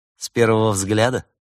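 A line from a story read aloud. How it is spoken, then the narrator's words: Mocking guess. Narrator (Russian): насмешливо предположила Берта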